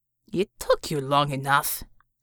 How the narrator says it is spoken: Savior grumbled

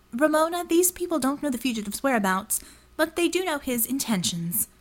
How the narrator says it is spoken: Jackpoint said coolly

